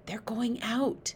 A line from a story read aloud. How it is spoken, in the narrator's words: Sophie whispered